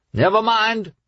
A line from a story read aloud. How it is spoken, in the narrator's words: the captain shouted back